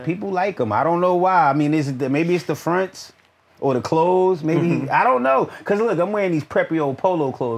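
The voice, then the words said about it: Slight Southern twang. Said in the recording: “You got a twang to you too. There's a little twang to you. ... that's my North Carolina ... that South, that St. Louis”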